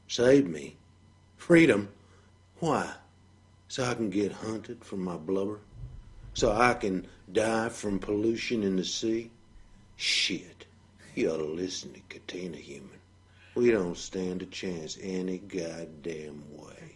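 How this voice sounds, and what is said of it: Southern American accent. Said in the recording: “he has a southern accent”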